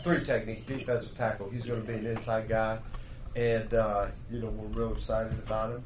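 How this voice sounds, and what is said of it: Pittsburgh accent. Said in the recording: “you can tell from my accent. I'm from the south side ... Pittsburgh guy”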